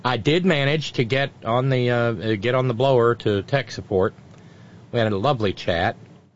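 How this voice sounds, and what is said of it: Sarcastic tone. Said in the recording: “Can you hear the sarcasm in my voice? If not, I'm not putting enough in.”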